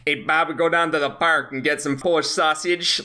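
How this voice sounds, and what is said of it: Put-on stereotypical Chicago accent. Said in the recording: “the Chicago accent is it is similar to the stereotypical New York accent ... It's about like braggadocio more than anything ... you have to collapse your neck a little bit”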